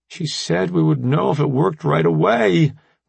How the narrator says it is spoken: Remy said through clenched teeth

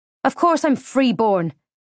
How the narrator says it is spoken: I snapped

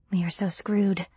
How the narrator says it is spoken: I said in a hushed tone

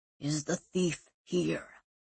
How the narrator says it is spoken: In a low, growling voice, the man asked

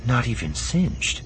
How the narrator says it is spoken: she murmured

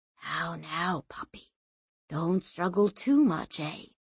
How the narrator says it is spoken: The man whispered in his ear

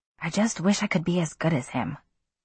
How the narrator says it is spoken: he said softly

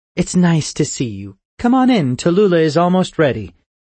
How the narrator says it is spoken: she said brightly

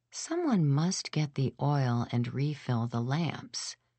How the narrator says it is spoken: whispered the little voice in the abyss

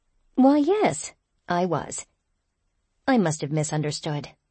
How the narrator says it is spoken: I said soothingly, lowering my voice

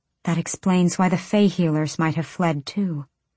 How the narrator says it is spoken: Irene murmured

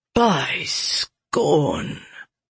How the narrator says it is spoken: Jester breathed

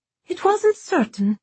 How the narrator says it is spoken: Alma piped up, beaming gloriously

